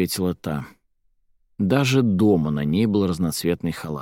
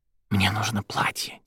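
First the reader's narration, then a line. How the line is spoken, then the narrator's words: Soft whisper. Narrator (Russian): тихо прошептала девушка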